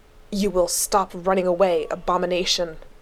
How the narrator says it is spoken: the angel growled

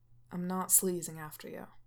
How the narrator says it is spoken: he says flatly

